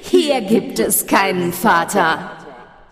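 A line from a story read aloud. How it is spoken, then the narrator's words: Laughing voice echoing from darkness. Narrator (German): schallte es lachend aus der Dunkelheit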